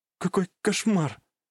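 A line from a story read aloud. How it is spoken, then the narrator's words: Whispered. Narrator (Russian): прошептала Рэй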